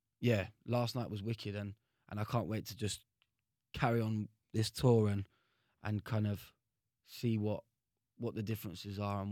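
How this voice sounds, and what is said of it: London accent. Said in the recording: “Is my accent too kind of like London or whatever?”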